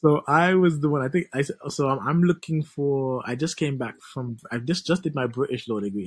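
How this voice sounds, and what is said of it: West Indian (St. Kitts) accent. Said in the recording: “What's this accent? This is another accent I like. ... A fellow West Indian, just like you. ... St. Kitts. ... Wow, I like this accent.”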